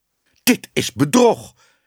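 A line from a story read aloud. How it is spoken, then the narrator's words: Calling out. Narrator (Dutch): riep meneer Ellemeet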